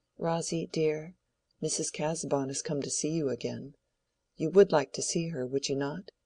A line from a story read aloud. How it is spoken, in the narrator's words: he said to her very gently